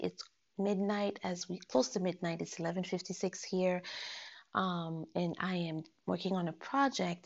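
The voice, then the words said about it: Lower voice than usual. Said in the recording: “my voice is going to be a little lower than usual because it's very, very late”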